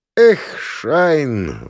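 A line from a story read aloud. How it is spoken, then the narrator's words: Sigh. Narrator (Russian): вздохнул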